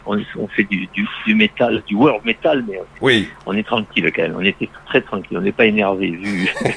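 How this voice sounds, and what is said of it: Sing-song regional French accent. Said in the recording (French): “cet accent ... Ça fait chantant, c'est terrible”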